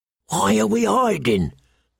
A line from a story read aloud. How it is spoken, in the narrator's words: the bull whispered